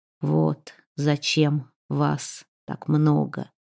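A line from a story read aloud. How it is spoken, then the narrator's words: Hoarse strained mutter. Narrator (Russian): Хрипло и сдавленно, с усилием одолевая судорогу в горле, пробормотал Вигмар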